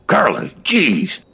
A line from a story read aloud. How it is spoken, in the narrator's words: I muttered